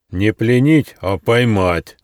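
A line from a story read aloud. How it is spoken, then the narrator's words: Rough rebuke. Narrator (Russian): грубо одернул его один из охотников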